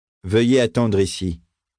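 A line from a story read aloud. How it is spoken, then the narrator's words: Plain. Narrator (French): dit l'enseigne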